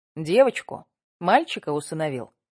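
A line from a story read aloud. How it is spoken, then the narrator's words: Plain. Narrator (Russian): спросил Колосов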